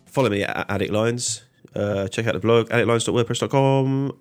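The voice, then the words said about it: Voice sounds sick. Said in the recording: “I'm sick. I don't know if you can hear it in my voice.”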